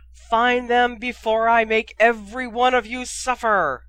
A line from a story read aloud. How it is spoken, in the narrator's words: Harry heard Voldemort shrieking